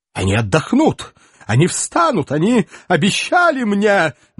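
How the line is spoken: Nervous shriek. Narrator (Russian): нервно взвизгнул предатель

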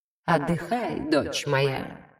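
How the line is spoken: Barely audible. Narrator (Russian): раздалось уже еле слышно

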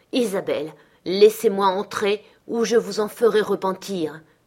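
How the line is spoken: Growling. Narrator (French): grogna-t-il

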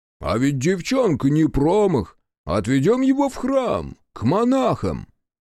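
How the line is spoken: Deep bass voice. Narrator (Russian): Монах пробасил

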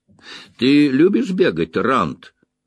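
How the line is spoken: Laughing. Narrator (Russian): засмеялся Лойл

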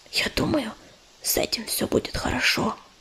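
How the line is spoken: Whisper. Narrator (Russian): прошептала Листочка

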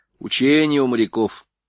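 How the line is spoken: Plain. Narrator (Russian): ответил заяц

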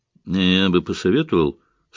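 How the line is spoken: Calm old man. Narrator (Russian): спокойно предложил старик

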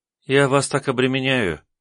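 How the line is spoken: Sad sigh, young woman. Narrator (Russian): грустно вздохнула девушка

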